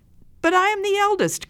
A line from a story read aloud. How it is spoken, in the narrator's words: cried the first child